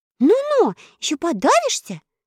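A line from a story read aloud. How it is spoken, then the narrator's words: Sharp scolding shout. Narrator (Russian): прикрикнула Элли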